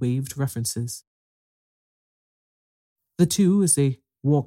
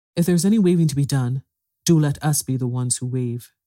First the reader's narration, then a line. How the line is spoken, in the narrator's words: said eagerly